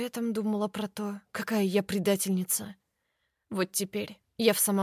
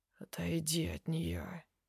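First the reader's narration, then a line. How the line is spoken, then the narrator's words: Rumbling, unnatural voice. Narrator (Russian): ракочет не своим голосом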